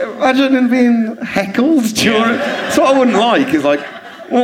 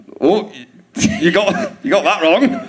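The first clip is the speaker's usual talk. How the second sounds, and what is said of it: Imitates another person's voice. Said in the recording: “my Daniel impression”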